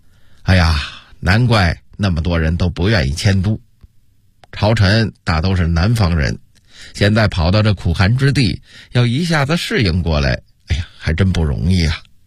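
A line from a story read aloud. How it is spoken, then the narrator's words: Sighing exclamation. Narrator (Chinese): 杨荣感叹地说道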